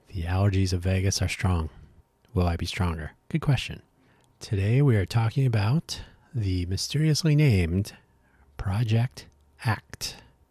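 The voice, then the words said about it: Raspy, failing voice. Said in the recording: “my voice is failing. I may be extra raspy.”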